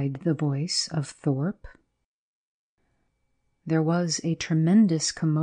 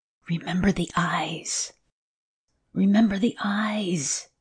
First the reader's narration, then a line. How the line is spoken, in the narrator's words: hissed Thorpe in the air above him